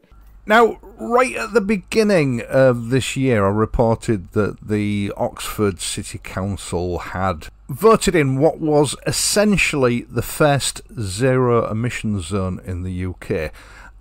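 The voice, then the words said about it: Very thick accent. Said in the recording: “He's got a very thick accent.”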